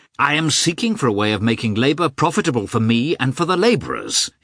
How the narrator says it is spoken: he answered hotly

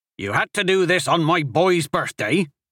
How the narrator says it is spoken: Bodrick snapped angrily to the sheriff

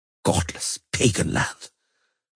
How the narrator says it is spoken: muttered Heinrich von Schwellborn

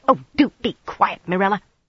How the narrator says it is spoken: Nisao snapped

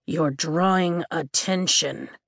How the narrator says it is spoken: Taryn growls

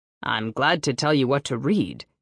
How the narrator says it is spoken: he said stiffly

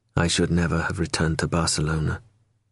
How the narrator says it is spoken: he murmured

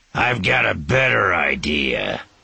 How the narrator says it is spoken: one of the men snarled, his voice as nasty as his appearance

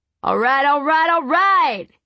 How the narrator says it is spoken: he shouted

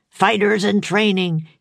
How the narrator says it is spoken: he roared

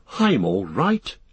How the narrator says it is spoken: gasped Frodo

